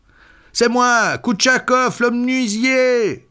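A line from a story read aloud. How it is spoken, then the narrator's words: Shouting. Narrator (French): cria-t-il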